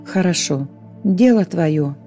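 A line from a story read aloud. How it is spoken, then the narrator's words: Sighing. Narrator (Russian): вздохнул ангел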